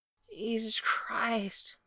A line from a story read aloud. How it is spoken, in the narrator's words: Gerard moaned